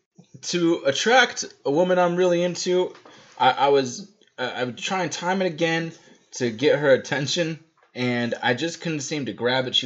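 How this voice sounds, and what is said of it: Southern Atlanta accent. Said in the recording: “As you might be able to tell from my accent. ... It's solid Atlantean.”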